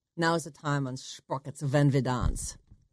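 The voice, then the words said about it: Put-on German accent. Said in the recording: “Can you do a German accent? ... that sounded ... Spanish. ... That's Brazilian.”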